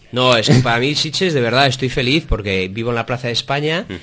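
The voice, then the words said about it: Spanish with an American accent. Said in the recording (Spanish): “ya se ve por el acento americano”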